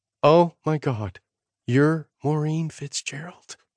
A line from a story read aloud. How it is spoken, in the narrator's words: Sloan whispered